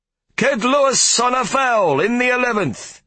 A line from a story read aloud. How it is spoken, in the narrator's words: he shouted